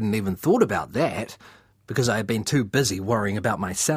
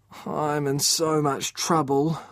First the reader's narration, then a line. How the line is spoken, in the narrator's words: I groaned